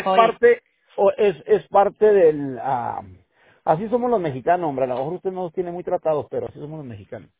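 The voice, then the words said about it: Northern Mexican Chihuahua accent. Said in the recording (Spanish): “Soy de Chihuahua. ... con razón el acento.”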